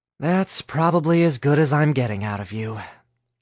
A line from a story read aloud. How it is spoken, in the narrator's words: Alice sighed